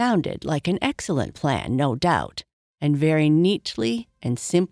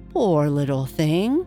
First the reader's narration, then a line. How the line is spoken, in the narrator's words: said Alice in a coaxing tone